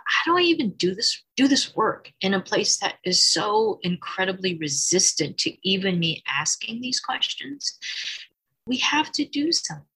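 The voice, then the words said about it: Emotional, slightly choked-up voice. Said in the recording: “you can tell I'm getting a little emotional just talking about it”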